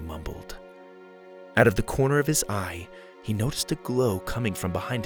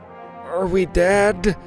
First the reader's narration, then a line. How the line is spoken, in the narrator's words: Mac moaned behind him